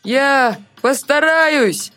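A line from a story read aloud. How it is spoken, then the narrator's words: Shouted reply. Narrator (Russian): В ответ крикнул Артур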